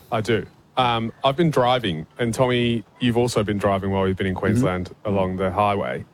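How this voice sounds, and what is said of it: English accent. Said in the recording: “hails originally from England. That's why his voice sounds a bit funny.”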